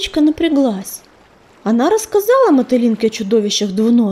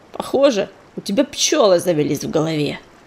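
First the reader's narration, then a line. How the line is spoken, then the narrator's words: Snorting kite. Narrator (Russian): фыркнул коршун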